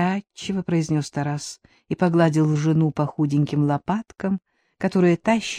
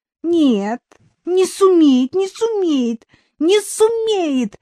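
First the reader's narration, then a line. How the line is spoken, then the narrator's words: Hysterical shriek, spoiled lady. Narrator (Russian): истерично взвизгнула избалованная папой, мамой, супругом и прислугой дамочка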